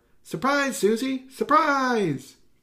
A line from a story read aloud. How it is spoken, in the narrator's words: a familiar voice cried out